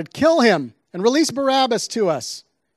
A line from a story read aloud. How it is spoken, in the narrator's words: with one voice, they shouted